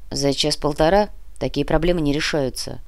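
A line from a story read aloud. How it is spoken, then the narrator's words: Gruff grumble. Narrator (Russian): буркнул генерал Шведов, начальник московского полицейского управления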